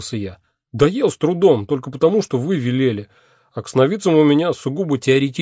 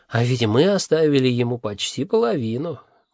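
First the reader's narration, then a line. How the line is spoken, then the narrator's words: Sighing. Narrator (Russian): вздохнула леди Сатофа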